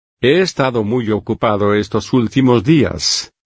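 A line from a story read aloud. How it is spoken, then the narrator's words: Plain. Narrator (Spanish): dijo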